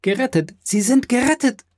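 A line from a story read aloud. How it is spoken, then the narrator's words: Breathless joyful girl's cry. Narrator (German): rief das Mädchen atemlos und beinahe sterbend vor Freude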